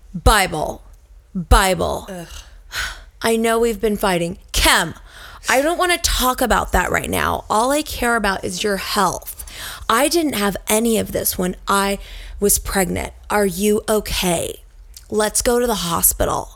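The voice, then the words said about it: Imitates another person's voice, pauses between sentences. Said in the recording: “Let me just point out how good that... Impression is. ... I mean, it was so good. ... And then the year between each sentence. I like this. ... That is how they talk.”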